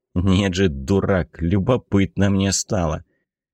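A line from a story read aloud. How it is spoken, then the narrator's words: Familiar soothing grumble. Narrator (Russian): Это ворчание было привычным и, как ни странно, успокаивало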